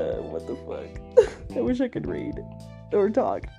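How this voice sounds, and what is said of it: Usual voice. Nothing is said of it.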